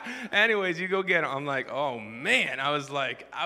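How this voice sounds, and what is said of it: Usual voice. Nothing is said of it.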